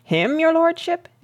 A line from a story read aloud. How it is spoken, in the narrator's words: exclaimed Wilkins